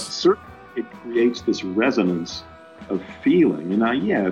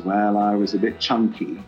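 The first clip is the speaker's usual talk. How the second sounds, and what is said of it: Weak put-on American accent. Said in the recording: “Not a very good American accent.”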